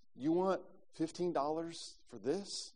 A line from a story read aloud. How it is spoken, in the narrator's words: as calmly as possible, he asked the vendor